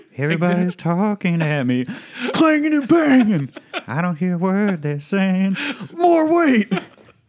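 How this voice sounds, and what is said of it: Sung impression of another person's voice. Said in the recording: “doing a perfect impression ... Of both Harry Nilsson and Dustin ... It's uncanny ... it's spot on”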